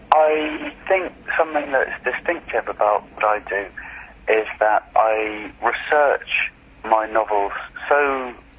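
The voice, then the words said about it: British accent. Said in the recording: “You have a very British accent”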